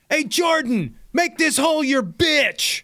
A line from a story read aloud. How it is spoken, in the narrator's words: the guy running the video just yells out